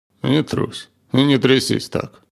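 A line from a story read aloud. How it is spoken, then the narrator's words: Barely audible. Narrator (Russian): сказал едва слышно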